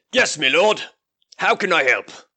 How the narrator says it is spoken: he says in a gruff voice

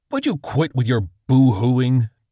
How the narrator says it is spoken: Dibbleman roared

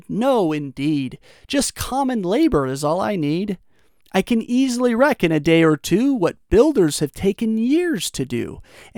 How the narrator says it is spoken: He gave a laugh and said

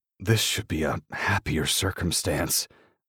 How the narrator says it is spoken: I growl

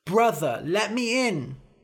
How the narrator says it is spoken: cried

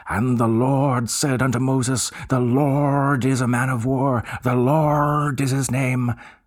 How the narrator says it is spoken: the minister was a good man, but when he bellowed

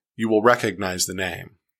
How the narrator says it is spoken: I said

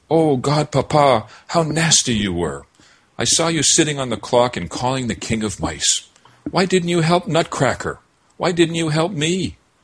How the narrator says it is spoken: she sat up and cried

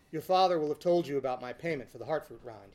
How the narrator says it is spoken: he sighed

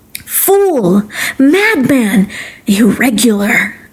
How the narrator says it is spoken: exclaimed

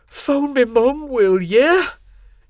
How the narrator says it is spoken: Jimmy begged, tears in his eyes

